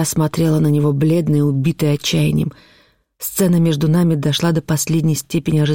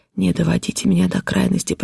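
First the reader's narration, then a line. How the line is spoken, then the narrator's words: Horrified whisper. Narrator (Russian): прошептал я в ужасе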